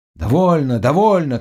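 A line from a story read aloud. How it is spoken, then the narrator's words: Group shouting. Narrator (Russian): кричали те, которые уже были на пароме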